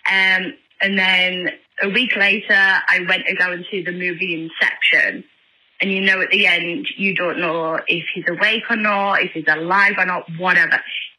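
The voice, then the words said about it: Northern English accent, congested voice. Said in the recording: “I have a very funny accent and very Northern English. We also have a sinus infection from bloody hair fever.”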